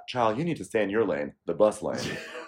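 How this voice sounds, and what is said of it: Sassy Cynthia impression. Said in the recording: “That was my Cynthia, my sassy Cynthia impersonation.”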